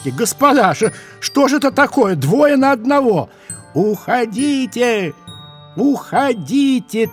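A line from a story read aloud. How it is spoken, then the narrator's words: Many voices shouting. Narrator (Russian): тысячами голосов кричали елочки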